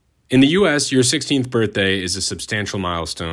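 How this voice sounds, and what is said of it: Usual voice. Nothing is said of it.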